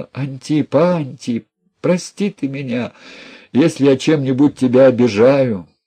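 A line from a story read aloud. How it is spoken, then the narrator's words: Woman speaking through tears. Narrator (Russian): Проговорила она сквозь слезы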